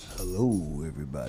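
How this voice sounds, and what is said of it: Deep radio announcer voice. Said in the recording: “That's his radio that's voice. ... That's his radio voice.”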